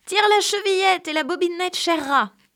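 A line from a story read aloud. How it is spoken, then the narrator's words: Softened call. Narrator (French): Le loup lui cria, en adoucissant un peu sa voix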